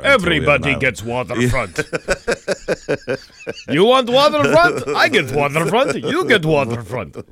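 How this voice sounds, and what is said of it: Mock Russian-sounding accent. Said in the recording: “I don't know why that sounds Russian to me”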